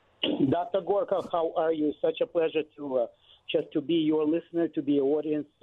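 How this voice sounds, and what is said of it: Slight Slavic accent. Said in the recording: “a little bit of a Slavic accent”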